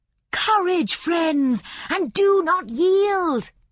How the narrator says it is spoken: she cried

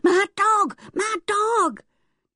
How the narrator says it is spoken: yelling

